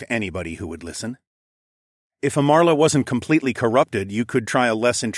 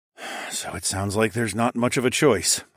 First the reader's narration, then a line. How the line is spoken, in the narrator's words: I sighed